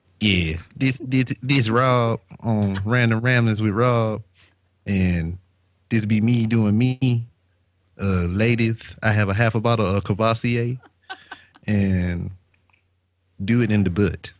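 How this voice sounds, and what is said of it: Impersonation of another man's voice. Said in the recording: “You do your best impersonation of Rob”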